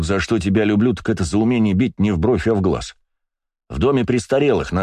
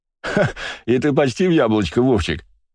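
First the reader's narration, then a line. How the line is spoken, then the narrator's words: Laughing loudly. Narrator (Russian): захохотал Василий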